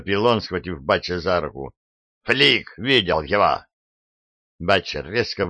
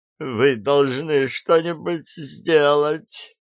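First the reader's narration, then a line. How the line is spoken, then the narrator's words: Moaning. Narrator (Russian): застонал он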